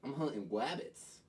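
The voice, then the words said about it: Cartoon hunter voice, poor attempt. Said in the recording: “your best Elmer Fudd impression right now ... That was fucking awful.”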